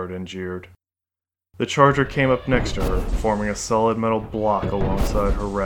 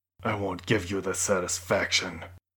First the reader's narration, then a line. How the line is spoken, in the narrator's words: hissed